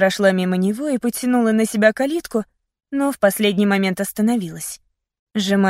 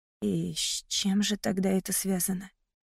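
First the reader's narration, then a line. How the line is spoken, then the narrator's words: Quiet whisper. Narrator (Russian): Прошептала я тихо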